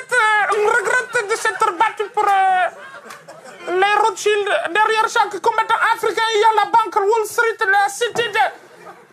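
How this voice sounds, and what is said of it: Agitated speech, strong hard-to-follow accent. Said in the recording (French): “Calme-toi, calme-toi. On ne comprend pas. Tu t'énerves, ton accent trottine comme ça.”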